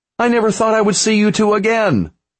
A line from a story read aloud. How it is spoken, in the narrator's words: she yelled over the sound of hooves